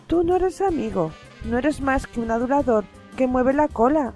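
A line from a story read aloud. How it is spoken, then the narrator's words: Wolf howling. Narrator (Spanish): aulló el lobo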